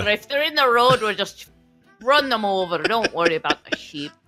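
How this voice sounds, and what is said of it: Put-on Australian-Irish semi-drunk accent. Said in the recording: “This Australian-Irish accent combo is awesome. ... it's an Australian-Irish semi-drunk accent.”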